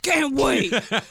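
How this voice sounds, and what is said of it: Good imitation of another person's voice. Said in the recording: “It's a good impression.”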